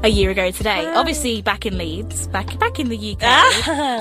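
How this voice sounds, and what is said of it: British English accent. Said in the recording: “can you tell by her accent? ... Weird accent, but okay.”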